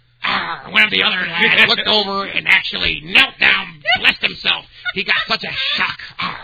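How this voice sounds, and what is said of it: Pirate voice. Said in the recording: “Like pirates. Do it in a pirate voice.”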